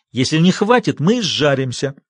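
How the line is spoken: Irritated, curt. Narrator (Russian): раздраженно бросил Большой Джим

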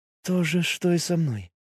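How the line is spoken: Quiet. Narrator (Russian): ответила Миори тихо

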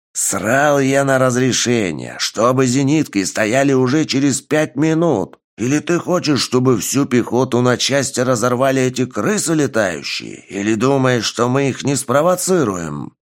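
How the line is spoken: Growled. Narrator (Russian): прорычал командир

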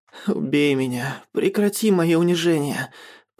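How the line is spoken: Moaning. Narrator (Russian): простонал Радим

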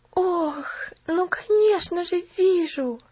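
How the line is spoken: Breathless exhale. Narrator (Russian): выдохнула Пуляна

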